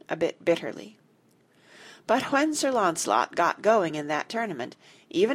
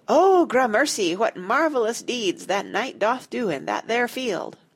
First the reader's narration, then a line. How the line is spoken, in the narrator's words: Jane sighed with a satisfied sigh